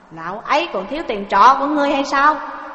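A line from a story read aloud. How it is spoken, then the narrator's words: Barked question. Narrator (Vietnamese): Lỗ Đại Hạc thấy vậy mà quát hỏi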